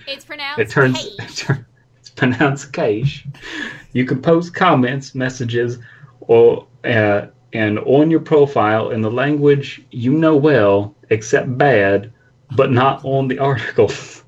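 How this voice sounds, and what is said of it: Put-on Texan accent like Sandy. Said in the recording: “it just immediately becomes Southern ... It really did become fucking Sandy from SpongeBob ... It didn't even become my southern accent. It turned into like a Texan one.”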